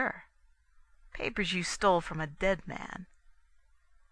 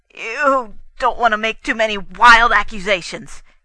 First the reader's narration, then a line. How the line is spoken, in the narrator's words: shouted, his voice shaking